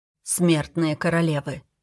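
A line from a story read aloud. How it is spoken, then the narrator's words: Quiet. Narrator (Russian): тихо сказал он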